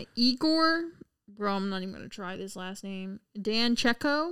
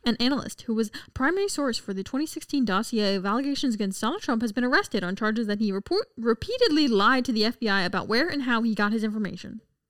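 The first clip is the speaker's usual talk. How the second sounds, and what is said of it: Reading aloud very fast. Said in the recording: “Read it fast, right? ... Pretty intense.”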